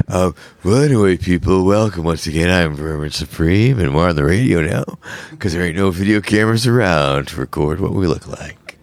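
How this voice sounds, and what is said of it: Deep, lowered radio announcer voice. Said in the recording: “I dropped my radio voice down a few octaves”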